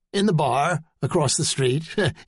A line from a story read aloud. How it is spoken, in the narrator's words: he said, laughing